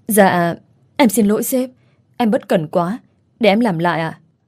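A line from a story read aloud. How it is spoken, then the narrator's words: Stammering. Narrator (Vietnamese): miệng lắp bắp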